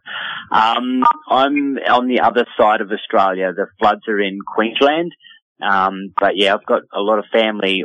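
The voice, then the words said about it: Australian accent. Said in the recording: “I love to hear that Australian accent.”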